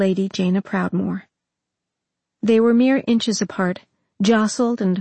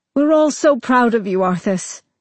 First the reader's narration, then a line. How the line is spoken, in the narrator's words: exclaimed